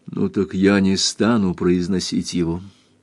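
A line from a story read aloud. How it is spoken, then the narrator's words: Quiet. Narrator (Russian): Кристин говорила тихо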